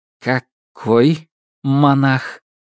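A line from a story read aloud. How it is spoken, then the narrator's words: Slow questioning repeat. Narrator (Russian): медленно моргнув, переспросил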